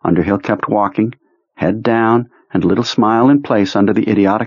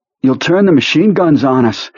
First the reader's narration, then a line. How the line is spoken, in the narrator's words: Henry panted